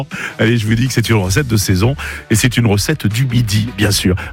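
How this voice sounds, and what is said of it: Speaker's own regional French accent. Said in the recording (French): “c'est l'accent que j'ai”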